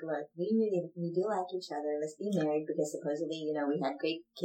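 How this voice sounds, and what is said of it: Usual voice. Nothing is said of it.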